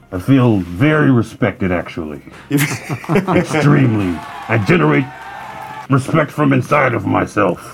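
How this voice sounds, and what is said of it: Disguised put-on voice. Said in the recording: “now you're doing a voice”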